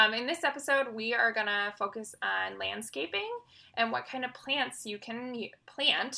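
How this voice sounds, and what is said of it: Usual voice. Nothing is said of it.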